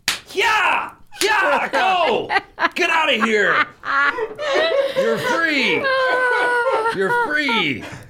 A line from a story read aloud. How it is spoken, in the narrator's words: I yell